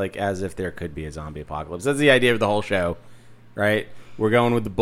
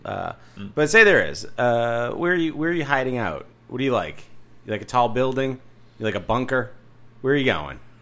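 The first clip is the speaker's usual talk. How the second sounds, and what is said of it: Salesy realtor-style pitch voice. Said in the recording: “you sound like a realtor on house hunters”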